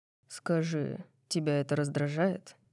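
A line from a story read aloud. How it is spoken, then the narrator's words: Quiet breath in ear. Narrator (Russian): Тихо спрашивает он, выдыхая вопрос мне в ухо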